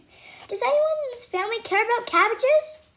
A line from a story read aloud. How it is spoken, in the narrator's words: I shout